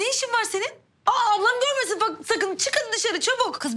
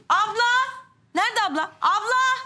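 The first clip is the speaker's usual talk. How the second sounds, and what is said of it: Shouting loudly. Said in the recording (Turkish): “Bağırma avaz avaz.”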